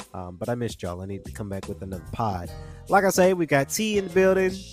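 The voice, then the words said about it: Slightly nasal, congested voice. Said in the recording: “I've been under the weather. So if I sound a little nasally, just a little bit”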